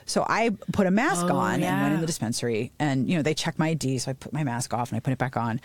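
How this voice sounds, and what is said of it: Congested voice from a cold. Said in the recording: “I have this nasty, disgusting cold ... you can hear in my voice”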